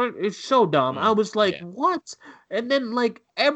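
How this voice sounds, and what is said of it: Usual voice. Nothing is said of it.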